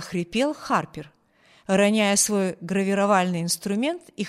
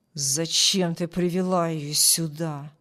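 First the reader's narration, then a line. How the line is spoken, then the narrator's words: Angry question. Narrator (Russian): злобно спросил Харпер у Джилл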